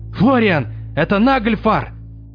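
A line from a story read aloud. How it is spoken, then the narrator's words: Alarmed shout. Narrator (Russian): встревоженно прокричал Лангер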